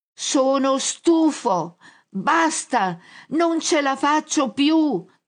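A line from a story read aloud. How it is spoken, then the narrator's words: Fed-up shouting. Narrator (Italian): grida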